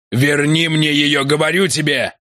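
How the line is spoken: Shouting. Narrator (Russian): крикнул он

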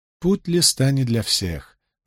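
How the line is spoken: Gentle remark. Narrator (Russian): мягко заметила Фейли

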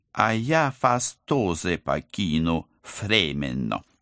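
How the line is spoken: Apologetic lisping. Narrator (Russian): извинился агент 013, шепелявя не хуже кулиманы

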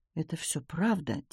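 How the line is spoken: Quiet. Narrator (Russian): тихо сказал Томми

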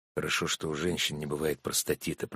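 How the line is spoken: Muttered. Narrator (Russian): пробормотал Сергей

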